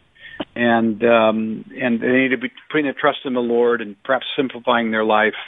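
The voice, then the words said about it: American accent. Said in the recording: “people can hear your American accent”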